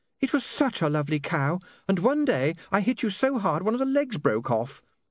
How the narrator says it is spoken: said Saccharissa dreamily

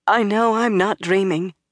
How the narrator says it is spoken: said in a quivering voice

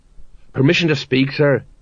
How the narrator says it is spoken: he muttered

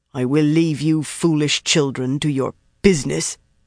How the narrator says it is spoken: the woman growled

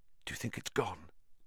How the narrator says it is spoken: Harry whispered

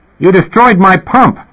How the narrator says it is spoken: the attendant yelled, totally out of breath and totally beside himself

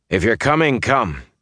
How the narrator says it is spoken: he said gruffly

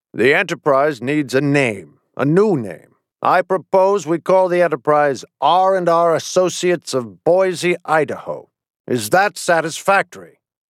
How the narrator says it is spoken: it said in a stern, confident voice

